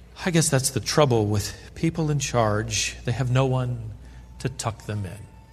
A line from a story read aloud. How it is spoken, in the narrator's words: his sister sighed and said